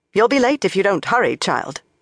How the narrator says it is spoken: the Blue Sister told Shiriam sharply

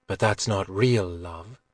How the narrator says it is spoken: Guinevere said quietly

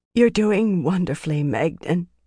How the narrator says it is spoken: Fael croaked

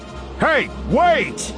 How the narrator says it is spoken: yells

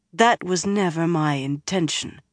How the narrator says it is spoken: Egyanen said stiffly

